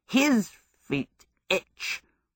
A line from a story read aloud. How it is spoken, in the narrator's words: grumbled Culcifer